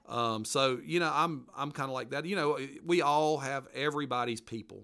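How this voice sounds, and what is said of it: Mountain regional accent. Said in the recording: “mountain folks ... judge me by my accent?”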